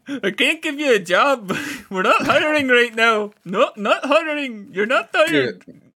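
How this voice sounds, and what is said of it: Attempted Irish or Welsh accent. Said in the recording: “I was trying to do an Irish accent, or a Welsh accent. ... Welsh, Irish. ... I was trying to do an old Welsh, but I can't do the Welsh.”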